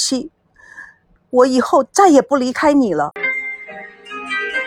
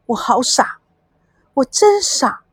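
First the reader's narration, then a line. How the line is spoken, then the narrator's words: Tearful murmuring. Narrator (Chinese): 孙娜泪水如断了线的珍珠滚了一地，她喃喃自语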